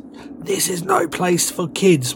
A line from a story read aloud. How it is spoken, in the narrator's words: had caught up by this point and gasped